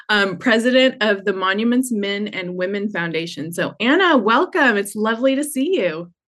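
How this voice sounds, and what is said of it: Georgia Southern US accent. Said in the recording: “Unfortunately, don't have a beautiful Italian accent to say that with, so there's my Georgia accent.”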